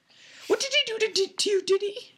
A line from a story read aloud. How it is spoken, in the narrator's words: Aunt Petunia said, in a quavering voice